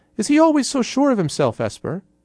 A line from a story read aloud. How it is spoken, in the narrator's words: said the hooded figure suddenly in a surprisingly high voice